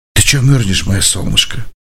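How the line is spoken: Whisper into ear. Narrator (Russian): чтобы добраться до уха девушки, парень прошептал

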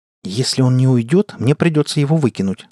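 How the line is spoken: Plain. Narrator (Russian): сказал я ей

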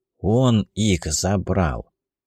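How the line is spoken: Quiet, she believes. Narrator (Russian): тихо, как ей показалось, произнесла

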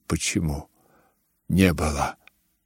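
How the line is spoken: Flustered mutter. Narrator (Russian): пробормотал генерал, и краска бросилась ему в лицо

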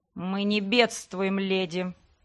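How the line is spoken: Through gritted teeth. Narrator (Russian): процедил Леграсс

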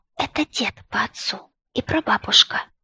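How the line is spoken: Whispering. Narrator (Russian): отвечаю тоже шепотом

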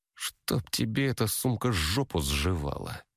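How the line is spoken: Muttered. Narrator (Russian): Пробормотала продавщица

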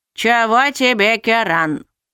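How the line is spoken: Displeased grumble, older woman. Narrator (Russian): Недовольно буркнула немолодая коротышка

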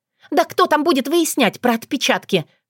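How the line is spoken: Shrill squeal. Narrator (Russian): взвизгнула

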